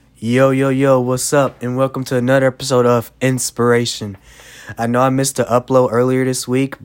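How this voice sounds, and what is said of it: Sick, under-the-weather voice. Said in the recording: “if you can tell it in my voice, but I've actually been sick”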